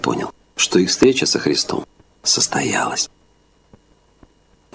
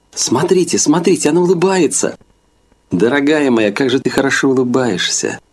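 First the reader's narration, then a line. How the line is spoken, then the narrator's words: Unrestrained exclamation. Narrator (Russian): Наша староста Зина даже не сдержалась и воскликнула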